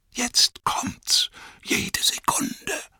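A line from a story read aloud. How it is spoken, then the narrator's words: Whispering. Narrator (German): sagte Pippin flüsternd zu Merry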